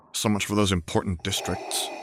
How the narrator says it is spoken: Anakin muttered

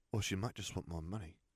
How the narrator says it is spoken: Katie muttered

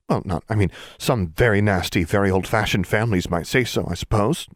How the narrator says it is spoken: she stammered

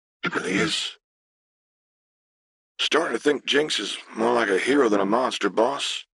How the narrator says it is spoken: said with a weak laugh

